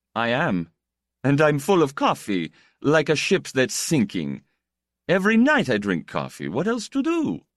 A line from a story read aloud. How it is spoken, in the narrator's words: He laughed again